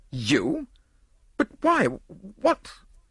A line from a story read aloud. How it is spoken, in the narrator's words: The nobleman spluttered impotently